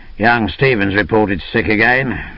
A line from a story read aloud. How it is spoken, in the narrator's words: he grumbled